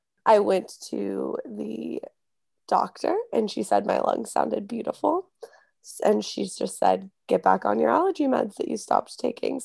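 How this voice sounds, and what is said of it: Congested, sick-sounding voice. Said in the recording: “You can tell by my voice. Number one, my cold is back.”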